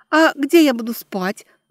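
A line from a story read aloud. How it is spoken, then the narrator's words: Timid babble. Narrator (Russian): пролепетала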